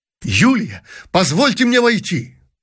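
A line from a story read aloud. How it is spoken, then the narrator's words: Exclamation. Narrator (Russian): воскликнул князь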